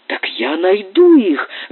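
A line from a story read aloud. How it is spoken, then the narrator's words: Ardent exclamation. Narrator (Russian): с жаром воскликнул Доннор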